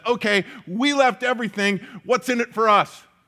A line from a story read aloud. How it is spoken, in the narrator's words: we joke, we laugh a little bit about that